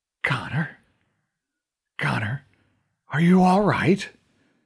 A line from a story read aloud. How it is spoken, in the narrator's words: His voice was faint and raspy